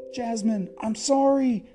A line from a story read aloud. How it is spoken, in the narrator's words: cried Aladdin